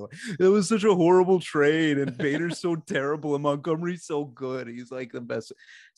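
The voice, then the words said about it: Mocking impression of the speaker's voice. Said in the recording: “This is ... doing my voice”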